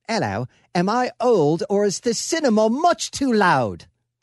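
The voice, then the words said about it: Put-on British accent, Hugh Grant. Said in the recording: “I'm trying to do a British accent because he's British. ... That's exactly what he would sound like.”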